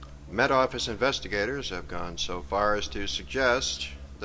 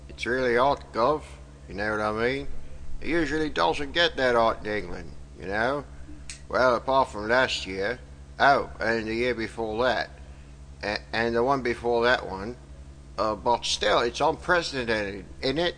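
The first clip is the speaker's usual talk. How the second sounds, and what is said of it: Exaggerated fake British accent. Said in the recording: “a disappointing faux British accent”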